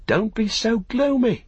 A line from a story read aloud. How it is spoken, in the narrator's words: cried Pippin